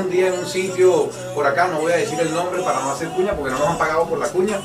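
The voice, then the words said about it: Venezuelan Spanish accent. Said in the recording (Spanish): “ella nada más escuchó ese acento ... Tú eres venezolano, ¿verdad?”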